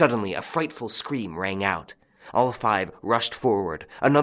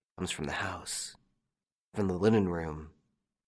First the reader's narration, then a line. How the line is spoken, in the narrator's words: One of them said, under his breath